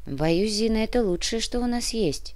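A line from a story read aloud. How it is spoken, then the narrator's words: Sigh. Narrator (Russian): вздохнула Олеся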